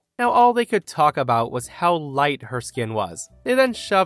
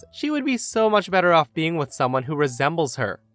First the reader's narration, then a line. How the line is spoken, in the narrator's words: The sister-in-law laughs and says